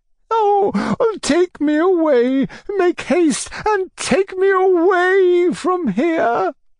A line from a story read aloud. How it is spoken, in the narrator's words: she said, sobbing